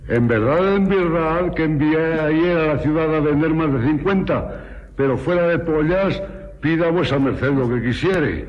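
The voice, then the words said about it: Strong Aragonese Spanish accent. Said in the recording (Spanish): “acento tremendo aragonés”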